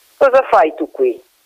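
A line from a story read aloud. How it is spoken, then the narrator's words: Plain question. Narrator (Italian): chiese Matteo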